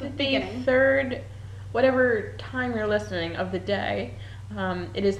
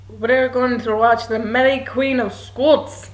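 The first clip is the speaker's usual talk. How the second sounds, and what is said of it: Put-on Scottish brogue. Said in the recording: “I'm gonna try my Scottish brogue. ... That was really good.”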